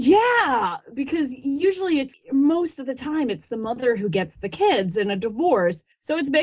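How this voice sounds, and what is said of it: Usual voice. Nothing is said of it.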